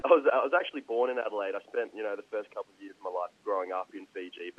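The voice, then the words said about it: Australian accent. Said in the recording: “sound very Australian”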